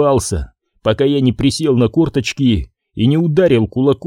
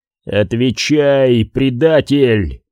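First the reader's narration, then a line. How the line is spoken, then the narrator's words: Growl, trying for calm. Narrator (Russian): зарычал я, пытаясь оставаться спокойным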